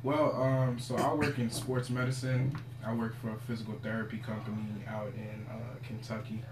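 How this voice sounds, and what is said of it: Smooth radio voice, slightly sore throat. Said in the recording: “I caught a little sore throat ... the smooth radio voice”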